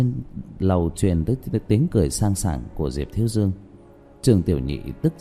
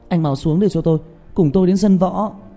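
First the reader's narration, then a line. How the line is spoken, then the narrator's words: Shout. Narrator (Vietnamese): Trương Tiểu Nhị hét lên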